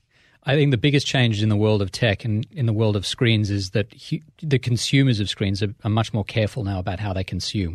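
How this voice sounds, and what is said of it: Australian accent. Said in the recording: “You're from Australia, which explains the accent.”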